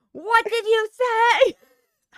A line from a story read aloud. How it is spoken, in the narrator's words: Daniel shouted